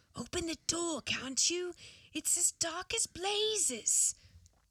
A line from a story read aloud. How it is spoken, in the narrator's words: a man's voice saying, in a kind of hoarse whisper